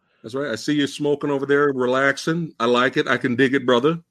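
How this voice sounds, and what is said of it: Usual voice. Nothing is said of it.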